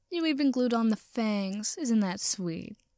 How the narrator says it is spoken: He sneered

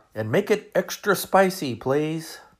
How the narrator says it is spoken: I called out

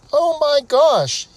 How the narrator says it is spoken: he exclaimed

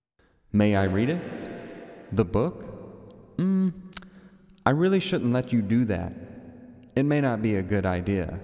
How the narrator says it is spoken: the woman said

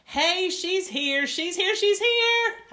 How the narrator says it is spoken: yelled real thrilled

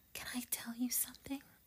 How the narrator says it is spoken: I whispered

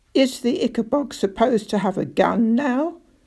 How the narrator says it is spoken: snapped Spittleworth

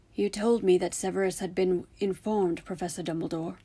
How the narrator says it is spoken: said in a hoarse voice

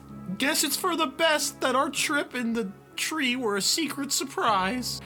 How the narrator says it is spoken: When his deep, shuddering sobs finally subsided, he said

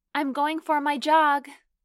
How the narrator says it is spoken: I yelled

